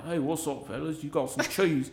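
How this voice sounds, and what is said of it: Put-on British accent. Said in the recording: “The dude sounded like he was straight out of the damn UK. There's no Chinese, no American accent.”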